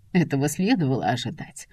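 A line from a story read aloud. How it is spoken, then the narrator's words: Grumbling. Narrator (Russian): ворчит она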